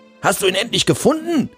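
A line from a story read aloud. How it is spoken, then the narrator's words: Excited shout. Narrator (German): rief Angul erregt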